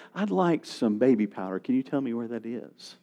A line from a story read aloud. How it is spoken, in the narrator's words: he would just calmly say